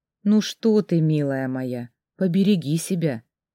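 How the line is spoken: Soft, gentle. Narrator (Russian): мягко сказала мама

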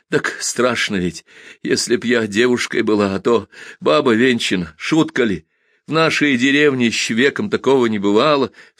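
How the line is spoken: Sobbing. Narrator (Russian): всхлипнула Тайка

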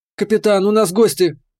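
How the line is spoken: Shout. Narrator (Russian): крикнула Кира

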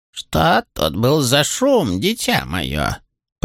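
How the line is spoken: Creaky old voice. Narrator (Russian): проскрипела старуха

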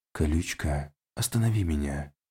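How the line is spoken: Hissed into neck. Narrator (Russian): Прошипел в ее шею

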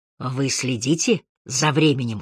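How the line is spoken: Whisper. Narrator (Russian): шепнул он Харри

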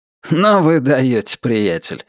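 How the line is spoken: Amused snort. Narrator (Russian): хмыкнул Альберт

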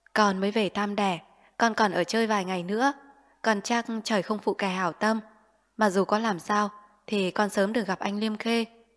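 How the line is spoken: Smiling. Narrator (Vietnamese): Lệ Dung mỉm cười

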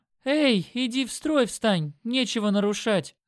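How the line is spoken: Demanding shout. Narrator (Russian): Раздался требовательный крик Кати

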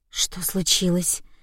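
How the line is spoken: Quiet question, young woman. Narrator (Russian): тихо спросила девушка

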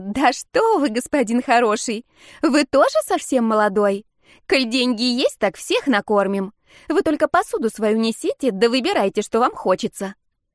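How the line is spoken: Singsong reply. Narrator (Russian): Уля нараспев ответила

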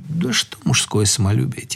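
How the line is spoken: Quiet. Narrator (Russian): тихо сказал наш Сереженька, как он это умел

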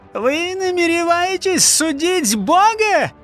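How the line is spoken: Shrill squealing yell. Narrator (Russian): пискливо завопил не Исака

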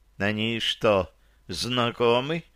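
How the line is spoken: Unsure mutter in ear. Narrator (Russian): неуверенно пробормотала Серафима мне в самое ухо

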